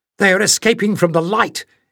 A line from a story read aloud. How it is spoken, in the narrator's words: exclaimed Jasmine